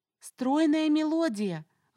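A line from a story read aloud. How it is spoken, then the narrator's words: Shout. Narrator (Russian): выкрикнула я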